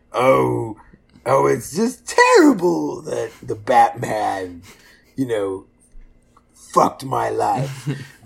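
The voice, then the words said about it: Joker character impression. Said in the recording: “Heath Ledger's Joker ... That was my impression reel.”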